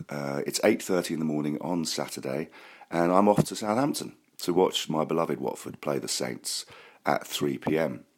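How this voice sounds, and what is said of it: Congested voice from a cold. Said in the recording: “You might be able to tell that I've got a bit of a cold.”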